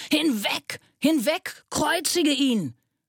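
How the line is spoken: Crowd shouting. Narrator (German): Sie aber schrien

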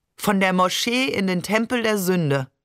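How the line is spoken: Joking, rumbling laugh. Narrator (German): sagte Barbe, lachte brummend

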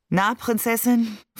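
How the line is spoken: Tired smiling question. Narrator (German): fragte er mich müde lächelnd

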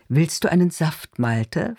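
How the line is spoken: Soft, suppressed anger. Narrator (German): fragt sie mit sanfter Stimme, in der auf einmal ein leiser, kontrollierter Zorn zu brodeln scheint

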